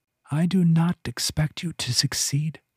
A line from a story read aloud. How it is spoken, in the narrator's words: the voluptuary whispered